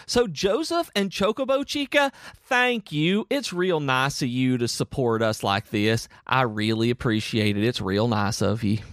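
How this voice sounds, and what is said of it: Exaggerated put-on Southern accent. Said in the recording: “You get extremely southern when you do thank yous ... I do it on purpose ... that is my exaggerated, ridiculous southern accent”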